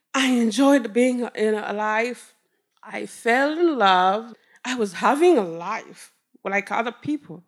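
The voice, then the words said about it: Rwandan-accented English. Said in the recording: “people hear my accent, they say, hey, where are you from? And I say, Rwanda.”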